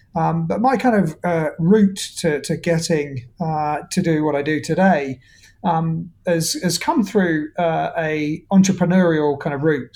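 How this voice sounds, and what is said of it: Speaks with a noticeable accent. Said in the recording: “despite the accent”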